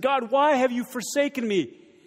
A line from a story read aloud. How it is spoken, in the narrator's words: in the midst of his anguish, he cries out to God and says